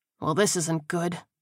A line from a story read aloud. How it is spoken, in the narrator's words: he muttered